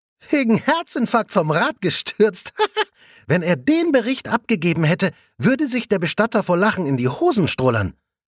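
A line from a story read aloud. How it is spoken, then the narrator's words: Giggling. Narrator (German): kichert Svenja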